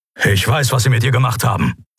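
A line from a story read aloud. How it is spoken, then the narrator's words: Grumbling. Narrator (German): brummte Keru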